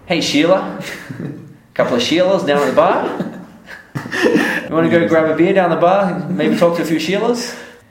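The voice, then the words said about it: Imitated Australian accent. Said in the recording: “My Australian accent's not so strong, but I'll try to imitate a perfect Australian.”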